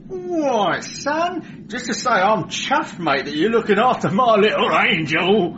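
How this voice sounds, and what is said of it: Chirpy Cockney accent. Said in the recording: “Cockney. ... Chirpy?”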